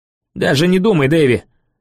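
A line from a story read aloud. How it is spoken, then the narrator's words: Barking. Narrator (Russian): рявкнул я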